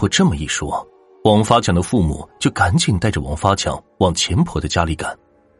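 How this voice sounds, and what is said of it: Usual voice. Nothing is said of it.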